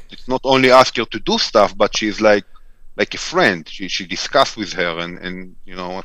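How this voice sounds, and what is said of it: Non-native English accent. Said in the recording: “I don't think Siri is picking up good enough my accent, but definitely my daughter that was raised here in America able to communicate quite efficiently with Siri”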